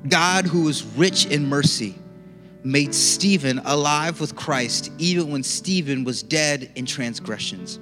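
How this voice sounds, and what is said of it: Slow, deliberate reading. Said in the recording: “read it slowly”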